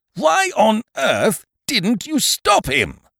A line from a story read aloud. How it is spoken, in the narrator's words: bellowed Eucridge, exploding